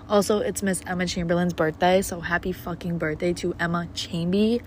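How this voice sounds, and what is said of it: Quiet, monotone voice. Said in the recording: “I'm very monotone too. I'm trying not to be fucking loud”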